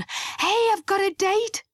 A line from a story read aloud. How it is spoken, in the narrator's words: he panted